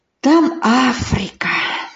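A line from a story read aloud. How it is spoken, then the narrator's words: Whispered. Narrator (Russian): шепотом проговорил он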